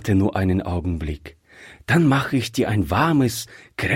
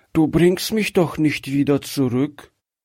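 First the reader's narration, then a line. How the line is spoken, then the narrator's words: Fearful weak child's voice. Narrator (German): fragte das Kind ängstlich mit schwacher Stimme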